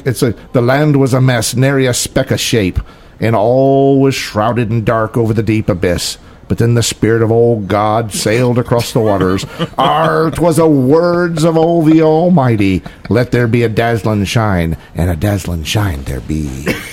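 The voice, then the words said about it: Put-on pirate accent. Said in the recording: “Love the accent, though. ... You cannot read that without putting on your best pirate accent.”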